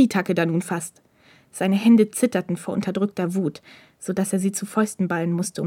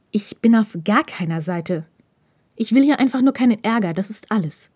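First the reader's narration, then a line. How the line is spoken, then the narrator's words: Hissed. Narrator (German): zischte Hirakawa ihm zu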